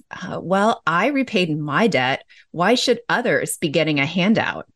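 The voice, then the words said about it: Sassy, mocking tone. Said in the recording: “if you hear my tone of voice while I'm saying that ... I liked your tone of voice”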